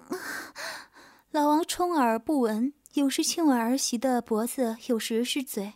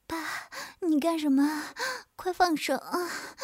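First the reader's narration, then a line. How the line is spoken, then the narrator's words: Breathless, panting. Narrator (Chinese): 曲颖呼吸有点娇喘道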